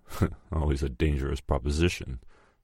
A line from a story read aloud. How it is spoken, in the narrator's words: chuckled Marcello humorously